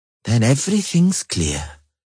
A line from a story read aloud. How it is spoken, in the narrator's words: sighed the dwarf